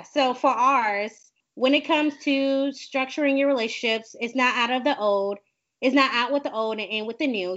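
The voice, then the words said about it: Speaker's own twang accent. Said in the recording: “my twang is going to get in the way”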